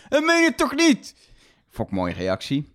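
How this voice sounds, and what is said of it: Put-on Brabant Dutch accent. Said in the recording (Dutch): “Ik deed het nu met een soort Brabants accent, maar het was Vlaams op tv”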